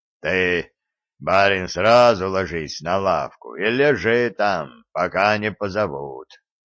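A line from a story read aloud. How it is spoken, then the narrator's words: Hoarse deep bass. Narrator (Russian): сказал Степан хриплым басом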